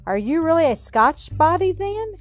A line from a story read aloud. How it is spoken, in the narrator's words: cried Robin, with new interest in Alan